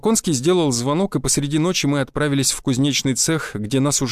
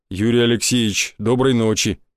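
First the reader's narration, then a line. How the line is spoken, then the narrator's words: Deep bass voice. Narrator (Russian): пробасил он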